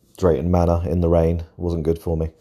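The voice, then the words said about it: Congested, deeper voice with a cold. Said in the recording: “I've got a little bit of a cold, so I apologise if I'm sniffing and my voice sounds a bit deeper”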